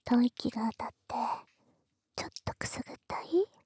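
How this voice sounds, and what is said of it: Quiet breathy whisper. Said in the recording (Japanese): “あまり耳元で大きな声を出してはダメです ... このくらいの声でいいかな ... 可愛い妹のささやき声なんだから”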